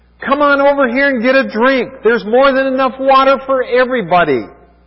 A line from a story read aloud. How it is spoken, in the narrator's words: began to shout